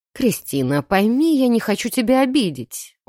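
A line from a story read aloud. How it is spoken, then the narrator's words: Sighing. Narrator (Russian): он вздохнул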